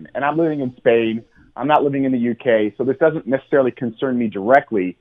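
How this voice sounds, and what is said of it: American accent. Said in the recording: “I'm an American, as you can tell from my accent.”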